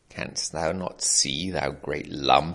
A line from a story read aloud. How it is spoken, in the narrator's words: snarled the Baba Yaga